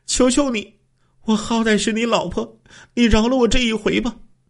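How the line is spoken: Woman tearfully pleading. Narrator (Chinese): 刘秀兰哭诉说

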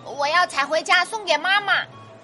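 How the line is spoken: Little mouse, loud. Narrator (Chinese): 小田鼠大声地说

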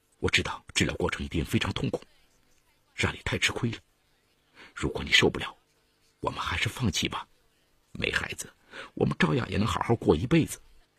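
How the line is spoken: Gentle soothing murmur. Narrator (Chinese): 在他耳旁轻声劝慰

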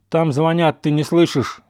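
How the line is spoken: Stern speech. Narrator (Russian): говорит он строго

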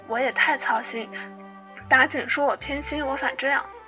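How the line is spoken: Sighing. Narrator (Chinese): 贾母点头叹道

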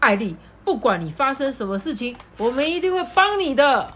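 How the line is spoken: Fox, very loud. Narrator (Chinese): 然后狐狸就很大声的说

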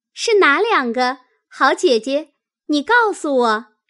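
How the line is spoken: Eager, smiling question. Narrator (Chinese): 湘云听了，忙笑问道

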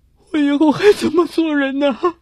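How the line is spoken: Hoarse crying. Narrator (Chinese): 半晌才哑着嗓子哭出声来

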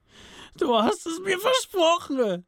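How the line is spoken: Exhausted scream. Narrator (German): schrie Sam mit letzter Kraft

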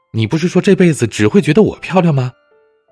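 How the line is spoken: Shouting. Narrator (Chinese): 他太太大喊着

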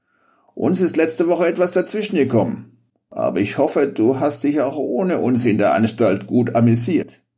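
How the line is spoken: Said with bleating laugh. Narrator (German): sagte er dann mit einem meckernden Lachen

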